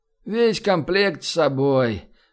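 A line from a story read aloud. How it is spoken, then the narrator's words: Sluggish sleepy big man. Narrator (Russian): Вялым сонным голосом отозвался здоровяк, уже улегшийся спать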